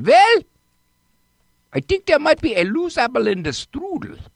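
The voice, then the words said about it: Put-on German accent. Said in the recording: “my German psychiatrist accent ... speak a little more like”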